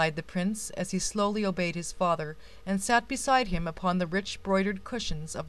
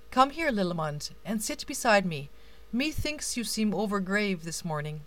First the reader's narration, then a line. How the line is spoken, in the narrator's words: the king continued kindly